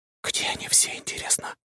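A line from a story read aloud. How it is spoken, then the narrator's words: Whisper. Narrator (Russian): прошептала Аня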